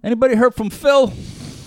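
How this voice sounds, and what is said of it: Imitates another person's voice, heavy breathing. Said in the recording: “Is this a good impersonation? ... He breathes pretty heavily in the show. ... That's very good.”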